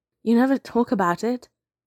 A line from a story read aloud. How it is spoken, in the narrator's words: he says